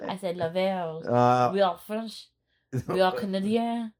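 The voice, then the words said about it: Pretty good put-on French accent. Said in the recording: “that was actually pretty good French accenting ... That was very good French accenting.”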